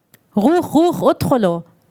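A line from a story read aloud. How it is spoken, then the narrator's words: Soldier's accented command. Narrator (German): forderte ein Soldat auf Arabisch mit hebräischem Akzent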